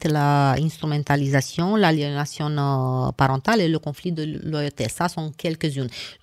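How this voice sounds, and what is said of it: Speaks French with an accent. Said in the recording (French): “Je m'excuse, mon accent. ... Moi, je ne peux pas m'en débarrasser”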